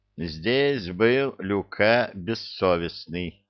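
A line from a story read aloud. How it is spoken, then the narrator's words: Slow reading aloud. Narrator (Russian): медленно прочел Нефей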